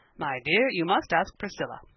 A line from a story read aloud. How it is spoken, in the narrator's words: he said, in the once firm voice, now become rather broken